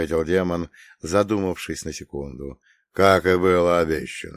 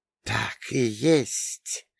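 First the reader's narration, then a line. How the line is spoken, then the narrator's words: Hissed by snake mother. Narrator (Russian): прошипела мать змеиха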